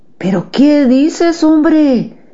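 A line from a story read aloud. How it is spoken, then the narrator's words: Father exclaiming. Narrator (Spanish): exclamó mi padre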